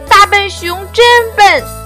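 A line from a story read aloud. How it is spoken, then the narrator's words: Two voices shouting loudly. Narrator (Chinese): 两只乌龟抱在一起，还在大声地喊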